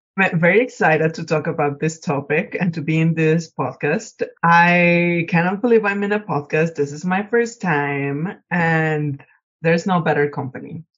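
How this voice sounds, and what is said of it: Speaks with an accent. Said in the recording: “I have an accent”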